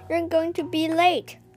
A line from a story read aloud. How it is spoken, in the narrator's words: shouted from the kitchen